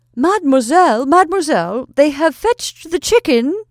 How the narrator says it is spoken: a woman put in her head, exclaiming

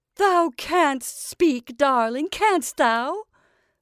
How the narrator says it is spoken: cried Mother Rigby, relaxing her grim countenance into a smile

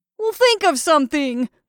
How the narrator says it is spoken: roared the other

